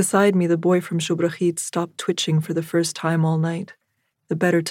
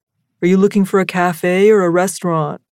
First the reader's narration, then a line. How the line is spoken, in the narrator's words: Sami repeated loudly